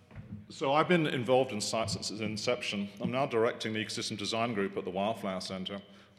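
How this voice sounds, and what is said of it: Texan accent. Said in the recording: “being a graduate of Texas A&M, as you can tell by my accent”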